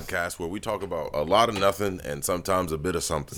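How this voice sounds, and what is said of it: Deep male voice. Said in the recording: “Man with the deep voice.”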